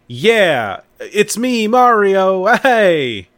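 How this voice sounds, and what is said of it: Imitation of Mario's voice. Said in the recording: “do a good impression”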